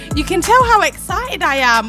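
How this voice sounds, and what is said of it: Excited shouting. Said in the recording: “I'm shouting,”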